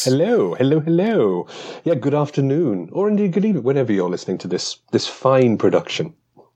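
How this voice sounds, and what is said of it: British Commonwealth non-American accent. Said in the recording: “That magical accent that's not an American accent ... some sort of British Empire Commonwealth sort of voice”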